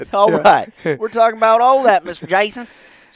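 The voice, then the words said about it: Exaggerated Tennessee Southern accent. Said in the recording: “We're in Tennessee, so this is his accent.”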